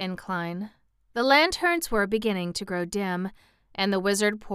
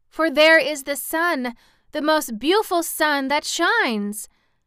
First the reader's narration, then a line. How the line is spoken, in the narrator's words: cried Dorothy